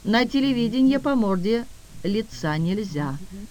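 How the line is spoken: Calm answer. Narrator (Russian): спокойно ответил дежурный

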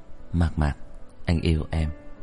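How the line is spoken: Soft whisper. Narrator (Vietnamese): Anh khẽ thì thầm

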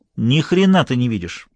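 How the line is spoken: Sharp. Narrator (Russian): резко сказала Лоретта

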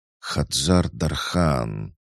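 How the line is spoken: Thoughtful drawl, stately woman. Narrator (Russian): задумчиво, будто что-то вспоминая, протянула величественная женщина

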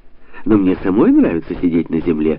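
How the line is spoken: Exclaimed. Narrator (Russian): воскликнула Бона

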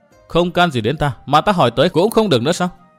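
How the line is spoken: Calm, smiling woman. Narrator (Vietnamese): Nàng áo xanh vẫn mỉm cười bình tĩnh

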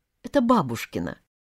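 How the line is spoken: Quiet explanation. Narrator (Russian): тихо пояснила Тата

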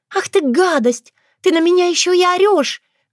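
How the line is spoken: Shrill shriek. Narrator (Russian): взвизгнула клиентка

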